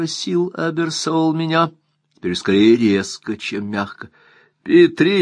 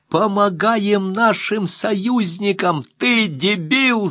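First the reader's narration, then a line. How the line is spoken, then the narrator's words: Shout. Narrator (Russian): закричал он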